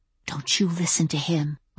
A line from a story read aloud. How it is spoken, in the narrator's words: I whispered to it